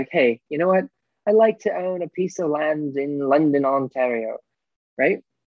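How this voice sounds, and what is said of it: Bad put-on Irish accent. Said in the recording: “Is that a good Irish accent? ... Oh, that was horrendous.”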